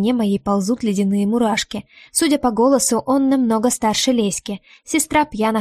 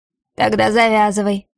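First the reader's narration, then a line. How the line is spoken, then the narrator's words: Rough barking man. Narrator (Russian): грубо рявкает мужчина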